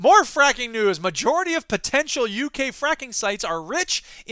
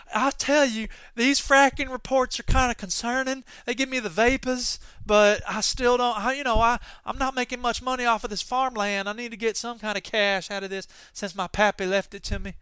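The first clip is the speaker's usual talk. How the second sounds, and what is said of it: Put-on Southern US accent. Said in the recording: “my dear South impression”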